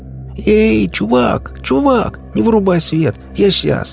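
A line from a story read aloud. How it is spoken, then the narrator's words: Continuous yelling. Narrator (Russian): человек не переставая вопить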